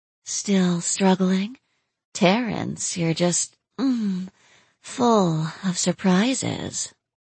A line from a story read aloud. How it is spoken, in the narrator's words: let out a low moan and said